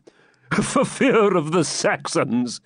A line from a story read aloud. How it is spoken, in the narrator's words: said De Bracy, laughing